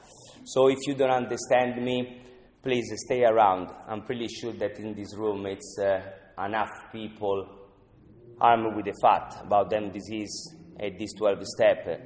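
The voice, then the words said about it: Non-native English accent. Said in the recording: “as you hear, I'm not from England. You know, I have a strange accent. I have my accent, English accent.”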